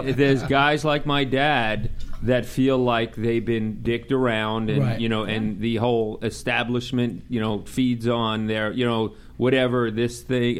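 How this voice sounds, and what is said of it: Long Island New York accent. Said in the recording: “you could tell by the accent ... I'm from Long Island”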